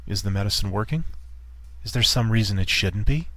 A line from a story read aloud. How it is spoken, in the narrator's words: Her tone was as venomous as always